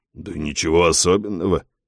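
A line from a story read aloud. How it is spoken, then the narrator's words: Mumbling. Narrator (Russian): бормочет Вилли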